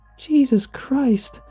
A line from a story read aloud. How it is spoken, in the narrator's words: girl cried